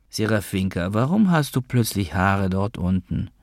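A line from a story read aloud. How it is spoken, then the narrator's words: Almost sad. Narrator (German): sagte ich jetzt fast traurig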